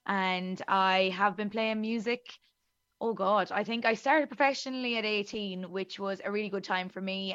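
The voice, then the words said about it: Thick Irish accent. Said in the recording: “my very thick Irish accent”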